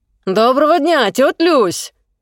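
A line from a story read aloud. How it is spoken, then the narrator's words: Booming voice. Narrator (Russian): Зычный Ксюхин голос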